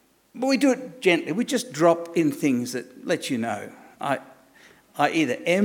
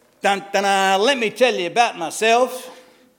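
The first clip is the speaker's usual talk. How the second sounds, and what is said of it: Put-on American accent. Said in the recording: “Why did that become an American accent?”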